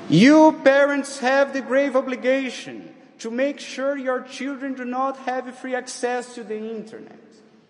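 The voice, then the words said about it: Accented English speech. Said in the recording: “in the case you didn't understand my accent”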